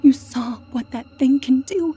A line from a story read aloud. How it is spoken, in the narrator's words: I pleaded